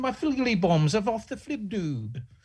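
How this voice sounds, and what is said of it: British accent impression of Drusilla. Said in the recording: “talks in a British accent ... It's uncanny ... That's your best impression”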